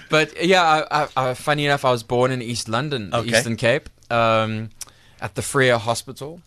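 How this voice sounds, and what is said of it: South African accent. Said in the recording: “we can hear that's a South African accent”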